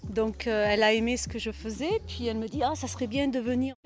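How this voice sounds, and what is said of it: Melodic Southern French accent. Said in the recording (French): “le bel accent chantant du Sud”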